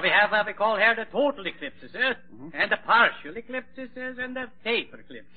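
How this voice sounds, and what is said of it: Comic Scandinavian-style accent. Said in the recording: “smorgasbord accent”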